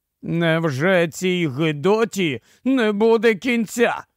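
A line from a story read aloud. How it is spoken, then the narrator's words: Despairing groan, captain. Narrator (Ukrainian): застогнав, виблимуючи розпач, капітан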